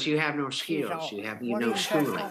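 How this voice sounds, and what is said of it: Holly Hunter impression. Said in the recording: “I never heard your Holly Hunter.”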